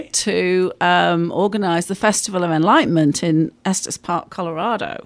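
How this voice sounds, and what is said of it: English accent. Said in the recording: “that's not a Texas accent. ... I'm from England”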